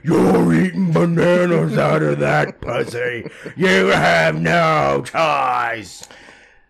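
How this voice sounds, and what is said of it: Imitates another person's voice. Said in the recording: “a perfect Lizzo impersonation”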